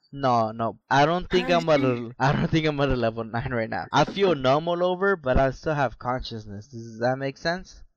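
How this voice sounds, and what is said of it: Drunk, slurred speech. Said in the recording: “I'm slurring. I know that for sure because our comments keep coming in that we're slurring.”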